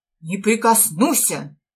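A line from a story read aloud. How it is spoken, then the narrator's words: Loud praying. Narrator (Russian): громко молиться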